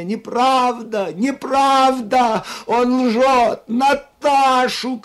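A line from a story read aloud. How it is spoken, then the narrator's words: Shouting. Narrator (Russian): кричала она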